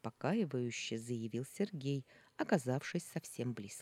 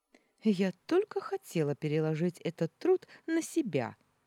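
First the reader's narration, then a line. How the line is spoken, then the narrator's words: Cheerful declaration. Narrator (Russian): весело заявила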